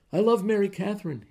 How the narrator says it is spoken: blurted

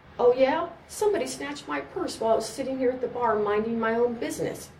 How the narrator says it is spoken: spluttered with anger and gin

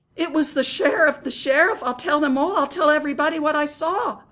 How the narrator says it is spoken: I cried

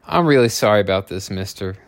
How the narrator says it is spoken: Lisa said

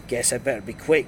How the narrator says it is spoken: replied

